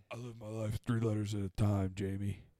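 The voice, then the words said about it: Imitates another person's voice. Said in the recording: “That was a great impression.”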